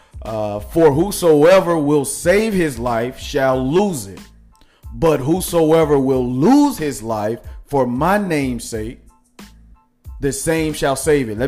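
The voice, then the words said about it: Preacher-style reading voice. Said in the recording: “let me get my preacher voice on”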